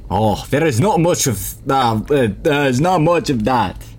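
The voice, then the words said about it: Attempted French accent, drifting. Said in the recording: “His accent continues changing because I can't do a French accent.”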